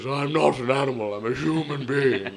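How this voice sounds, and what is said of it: Imitates the Elephant Man's voice. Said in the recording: “My mum does this impression of the elephant man”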